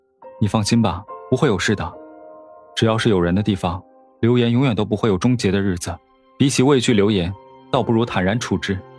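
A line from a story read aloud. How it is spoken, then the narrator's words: Calm, soothing tone. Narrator (Chinese): 沈长安语气淡淡，却让人心安至极的说道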